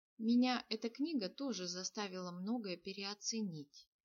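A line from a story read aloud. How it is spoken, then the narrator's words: Quiet. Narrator (Russian): негромко сказал Нир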